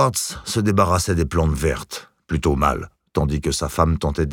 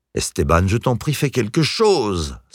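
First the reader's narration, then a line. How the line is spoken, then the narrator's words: Exasperated exclamation. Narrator (French): s'exclama Vera, exaspérée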